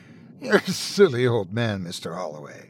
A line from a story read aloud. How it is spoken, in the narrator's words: she would always laugh at him, saying